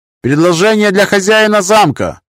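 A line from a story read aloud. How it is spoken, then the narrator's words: Shouted. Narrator (Russian): выкрикнул он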